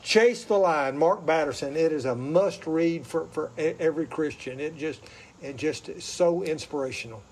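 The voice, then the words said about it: Southern accent. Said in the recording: “With my southern accent, it may sound like L-Y”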